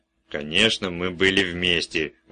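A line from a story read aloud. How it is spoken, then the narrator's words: Irritated mutter. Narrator (Russian): раздраженно буркнул Карлайл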